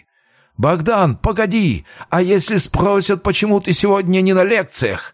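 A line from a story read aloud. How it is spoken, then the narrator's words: Shouting after someone. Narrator (Russian): выкрикнул вдогонку Полиньяк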